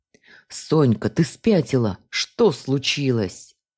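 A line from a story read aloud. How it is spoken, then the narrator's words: Husband's hiss. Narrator (Russian): прошипел супруг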